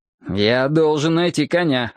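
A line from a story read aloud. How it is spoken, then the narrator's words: Irritated. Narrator (Russian): раздраженно сказал я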